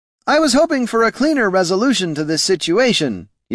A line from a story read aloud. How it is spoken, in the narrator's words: yelled Mr